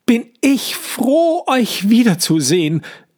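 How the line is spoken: Relieved cry. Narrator (German): ruft Johannes und fällt seinen Eltern erleichtert in die Arme

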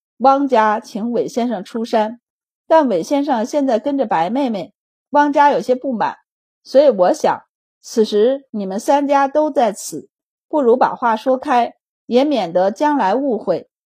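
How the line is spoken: Laughing. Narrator (Chinese): 杨泽之笑道

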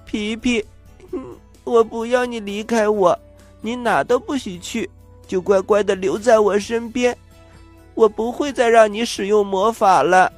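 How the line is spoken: Crying, pleading. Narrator (Chinese): 丽丽忽然把他抱得紧紧的，她哭着说

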